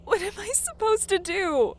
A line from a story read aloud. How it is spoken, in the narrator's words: She whimpered